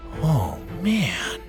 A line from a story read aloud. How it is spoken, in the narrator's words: Bo mumbled